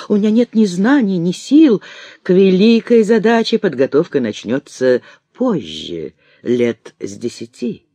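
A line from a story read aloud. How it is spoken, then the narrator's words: Calm objection. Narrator (Russian): спокойно возражала госпожа Флотова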